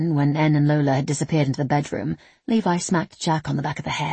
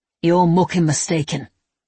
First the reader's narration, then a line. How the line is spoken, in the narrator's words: Levi growled